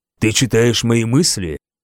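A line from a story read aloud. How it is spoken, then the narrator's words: Whisper. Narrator (Russian): зашептала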